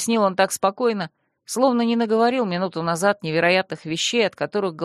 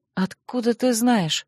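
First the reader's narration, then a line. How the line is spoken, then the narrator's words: Stunned mutter. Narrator (Russian): ошеломленно пробормотала я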